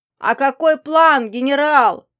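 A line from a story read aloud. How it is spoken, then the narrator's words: Attention-seeking shout. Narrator (Russian): крикнул, привлекая внимание преподавателя Лашир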